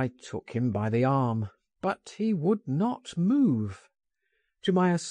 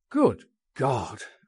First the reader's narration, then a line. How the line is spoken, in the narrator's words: I exclaimed